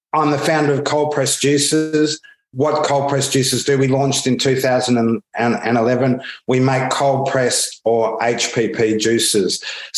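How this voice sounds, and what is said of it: Australian accent. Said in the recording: “You can probably pick up already from my accent that I'm Australian.”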